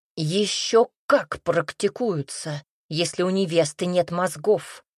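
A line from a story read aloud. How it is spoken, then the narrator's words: Father's bark. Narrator (Russian): рявкнул папенька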